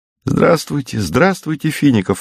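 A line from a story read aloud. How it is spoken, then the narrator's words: Joyful group reply. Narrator (Russian): радостно отвечали сестры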